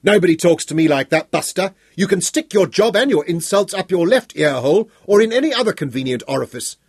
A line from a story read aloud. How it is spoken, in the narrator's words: Bonnie yelled into his face